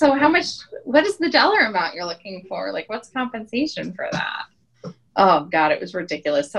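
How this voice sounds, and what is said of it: Usual voice. Nothing is said of it.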